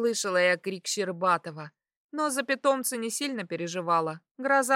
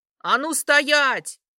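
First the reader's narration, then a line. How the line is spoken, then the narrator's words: Female shout. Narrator (Russian): крикнула я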